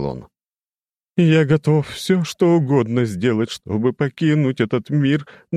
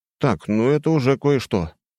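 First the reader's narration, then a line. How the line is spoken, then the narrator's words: Relieved sigh. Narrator (Russian): облегченно вздохнул я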